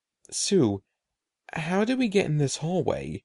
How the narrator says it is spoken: Eddie asked softly

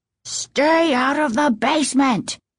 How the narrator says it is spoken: he bellowed in a voice they'd never heard before

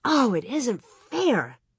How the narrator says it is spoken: She cried out

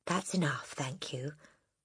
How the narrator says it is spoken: the boy murmured

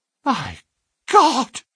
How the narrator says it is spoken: gasped our client

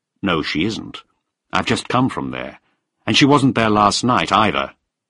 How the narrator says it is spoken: I said firmly

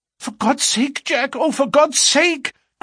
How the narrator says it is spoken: cried poor, distracted Etty

